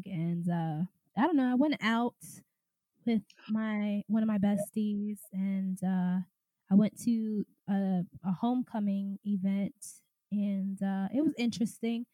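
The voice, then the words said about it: Congested voice, unusually deep and wavering. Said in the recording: “I have a little bit of a sinus thing going on, so my voice is strange. it's deep 1 second, and it's high pitched the next. I'm normally high pitched as ever, but it's super deep right now because I got a sinus thing.”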